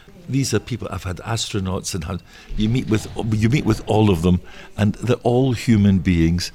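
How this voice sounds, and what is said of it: Scottish accent. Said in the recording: “my Scottish accent because I'm from Scotland”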